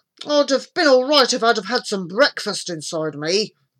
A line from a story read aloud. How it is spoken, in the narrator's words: grumbled Norman